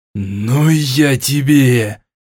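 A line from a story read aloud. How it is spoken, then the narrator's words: Hiss of helpless rage. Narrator (Russian): в бессильной злобе прошипел Сет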